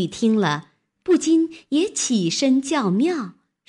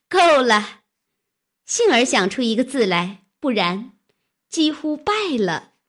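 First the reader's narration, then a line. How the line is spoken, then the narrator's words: Laughing. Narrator (Chinese): 笑道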